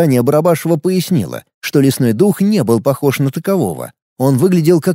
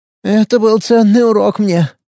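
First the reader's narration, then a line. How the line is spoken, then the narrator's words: Elderly woman's sigh. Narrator (Russian): вздохнула пожилая женщина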